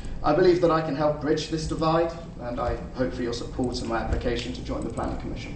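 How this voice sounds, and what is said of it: Non-local accent. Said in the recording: “She's got a funny accent. ... I do have a funny accent. ... I'm not from here originally”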